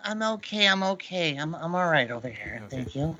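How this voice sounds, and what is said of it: Imitates another person's voice. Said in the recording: “trying to do a Peter Lorre impression ... I didn't go over so well ... Sounded like Peter Lorre with a plug up his ass”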